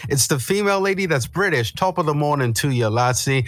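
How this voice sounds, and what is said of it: Mismatched put-on British-Irish accent. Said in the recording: “That is a different accent”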